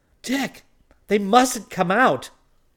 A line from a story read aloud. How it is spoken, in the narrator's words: exclaimed Dorothy in dismay